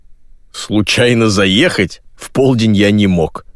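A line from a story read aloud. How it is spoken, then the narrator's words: Laughing. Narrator (Russian): рассмеялся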